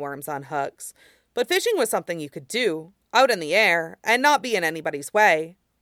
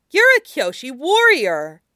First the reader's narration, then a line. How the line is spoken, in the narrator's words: Suyin blurted out